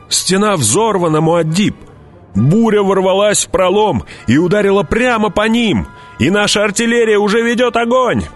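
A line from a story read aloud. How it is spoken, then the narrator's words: Shouted. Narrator (Russian): прокричал он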